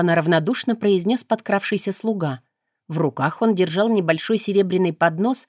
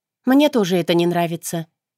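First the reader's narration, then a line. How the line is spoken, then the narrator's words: Calm. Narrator (Russian): произнесла спокойно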